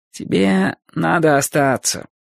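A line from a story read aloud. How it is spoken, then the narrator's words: Mumbling. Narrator (Russian): промямлил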